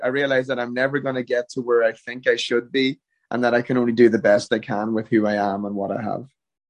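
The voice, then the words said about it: Irish accent. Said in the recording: “That accent of yours... you sound raw Irish still”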